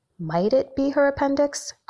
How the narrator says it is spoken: Gretel asks calmly

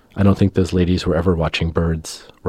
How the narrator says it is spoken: Rolf says

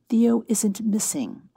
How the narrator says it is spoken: Betty said calmly

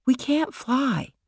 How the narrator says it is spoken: Michael said quietly

